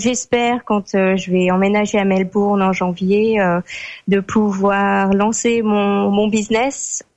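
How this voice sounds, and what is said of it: French with slight Australian accent. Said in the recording (French): “t'as un petit accent anglo-saxon, tu sais comme les les Français qui vivent aux États-Unis ... t'as ton petit accent australien quand tu me parles”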